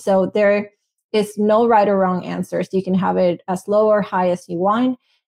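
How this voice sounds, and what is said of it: Speaks English with an accent. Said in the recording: “sorry for my accent”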